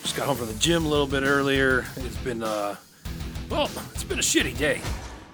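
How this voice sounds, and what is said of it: Tired, worn-out voice. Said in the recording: “I sound a little tired, a little beat up.”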